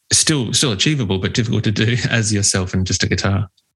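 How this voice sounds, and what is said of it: Australian accent. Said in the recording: “I'm not sure if you can tell by the accent, but we are in Australia.”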